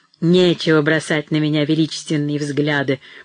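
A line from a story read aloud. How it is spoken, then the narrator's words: Grumbling, short spiteful laugh. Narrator (Russian): проворчал Броуди с коротким злобным смехом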